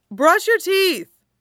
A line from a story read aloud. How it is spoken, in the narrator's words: Peter shouts after him